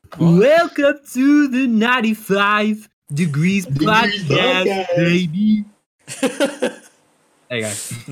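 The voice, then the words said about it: Imitates another person's voice. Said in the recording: “my Randy Newman impression”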